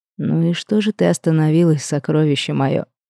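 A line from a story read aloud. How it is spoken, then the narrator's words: Dragon, soft, careful. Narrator (Russian): Мягко поинтересовался дракон, словно боясь меня спугнуть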